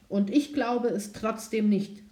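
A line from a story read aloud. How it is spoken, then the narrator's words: Young prince calling. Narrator (German): rief der Königssohn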